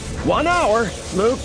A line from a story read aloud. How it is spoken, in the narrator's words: Lando shouted